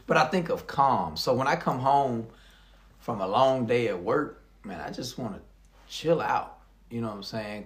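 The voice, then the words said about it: American country accent. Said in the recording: “I know I got a country accent”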